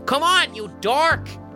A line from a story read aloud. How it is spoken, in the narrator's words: shouts Sam